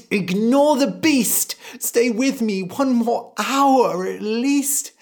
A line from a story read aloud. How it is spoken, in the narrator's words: The mother cried